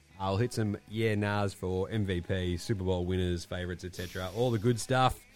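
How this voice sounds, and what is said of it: Sick, slightly off voice. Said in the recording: “I've been sick for 3 days. ... You can probably tell with my voice there, Gaz. My voice is a bit weird.”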